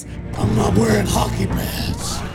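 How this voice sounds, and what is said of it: Over-the-top monstrous Batman voice. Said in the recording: “this animalistic, monstrous Batman with a voice ... it's a bit over the top and silly ... My imitation of the voice”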